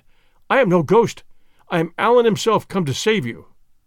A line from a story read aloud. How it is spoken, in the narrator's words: I cried